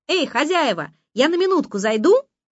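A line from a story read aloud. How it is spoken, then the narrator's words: Shouting. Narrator (Russian): кто-то кричал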